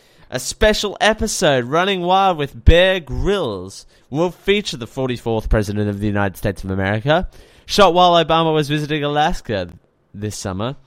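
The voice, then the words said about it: News read in Oprah-style voice. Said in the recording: “why am I doing that open voice? ... That Oprah voice has returned.”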